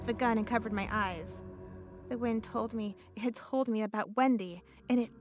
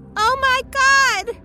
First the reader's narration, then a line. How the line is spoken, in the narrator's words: Wendy screamed